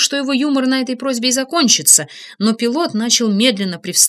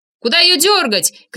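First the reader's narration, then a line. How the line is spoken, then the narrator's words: Shouting. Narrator (Russian): крикнул я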